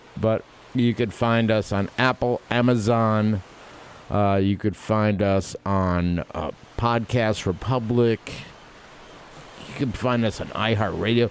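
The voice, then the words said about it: Massachusetts accent. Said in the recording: “I'm saying that with my Massachusetts accent”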